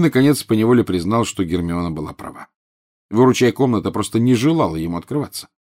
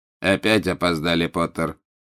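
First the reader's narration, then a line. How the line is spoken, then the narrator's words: Cold. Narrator (Russian): холодно произнес Снег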